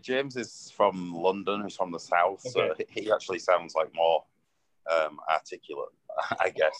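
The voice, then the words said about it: Thick northern English accent. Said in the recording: “Is James' accent really thick like yours? ... I've got the northern accent.”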